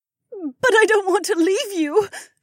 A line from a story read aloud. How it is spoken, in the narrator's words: she sobbed